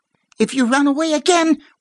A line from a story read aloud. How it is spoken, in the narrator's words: warned Kate, her voice pitched high and trembling